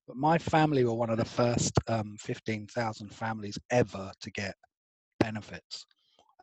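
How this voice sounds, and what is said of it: Posh English accent. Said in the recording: “you can tell this by my accent, makes me sound incredibly posh”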